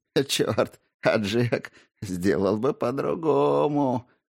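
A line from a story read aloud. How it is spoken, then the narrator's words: Old man suddenly laughing. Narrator (Russian): Вдруг засмеялся старик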